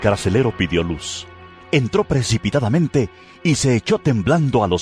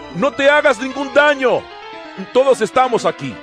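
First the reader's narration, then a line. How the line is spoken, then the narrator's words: Shouting. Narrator (Spanish): Pablo le gritó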